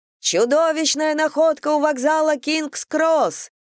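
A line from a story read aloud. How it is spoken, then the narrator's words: Ecstatic yelling. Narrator (Russian): в экстазе вопили они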